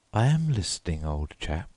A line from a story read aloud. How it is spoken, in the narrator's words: replied soothingly